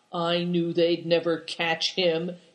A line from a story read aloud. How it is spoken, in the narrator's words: he growled, knitting his brows